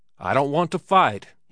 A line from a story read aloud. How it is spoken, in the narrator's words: he shouted